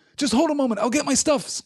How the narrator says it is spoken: cried Sam eagerly

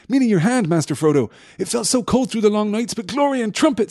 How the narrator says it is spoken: cried, with shining eyes

